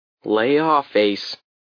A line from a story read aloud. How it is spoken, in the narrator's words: said wearily